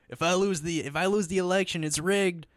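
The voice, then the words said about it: Bad Donald Trump impression. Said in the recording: “I had a terrible Trump impression.”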